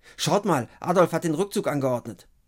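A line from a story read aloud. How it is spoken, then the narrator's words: Calling out. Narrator (German): ruft Fabian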